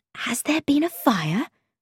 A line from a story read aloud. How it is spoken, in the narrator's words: I asked in an anxious whisper